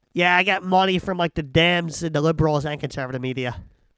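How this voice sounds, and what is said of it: Restrained put-on Boston accent. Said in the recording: “I can't do a Boston accent, but I'll try ... I thought you were going to go so hard on that accent, and that was actually very restrained and tasteful”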